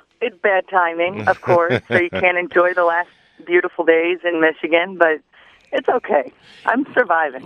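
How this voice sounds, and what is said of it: Slightly raspy voice. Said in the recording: “she sounded like Britney a couple days ago with the Demi Moore voice going on. You sound a lot better... I'm still a little raspy”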